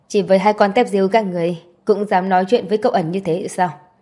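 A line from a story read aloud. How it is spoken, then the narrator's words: Cold, impatient. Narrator (Vietnamese): Trường Sách cũng mất kiên nhẫn, lạnh lùng nói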